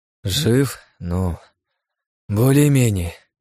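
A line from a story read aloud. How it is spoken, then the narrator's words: Sigh. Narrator (Russian): вздохнул я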